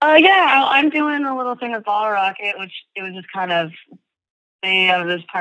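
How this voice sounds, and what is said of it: Usual voice. Nothing is said of it.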